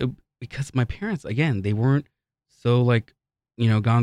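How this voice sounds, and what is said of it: Usual voice. Nothing is said of it.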